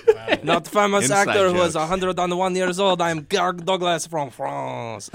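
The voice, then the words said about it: Put-on foreign accent. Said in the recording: “your alternate name you came up with before with your accent”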